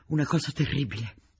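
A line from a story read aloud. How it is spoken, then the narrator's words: Panting. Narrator (Italian): ansimò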